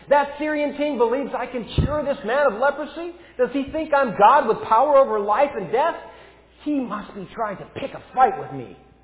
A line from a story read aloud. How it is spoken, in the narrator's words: he tore his clothes in fear and shouted